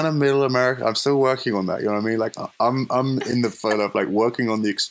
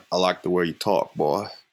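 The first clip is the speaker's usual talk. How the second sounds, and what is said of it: Creepy Southern American voice. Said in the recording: “like the creepy southerner ... I think you nailed that one.”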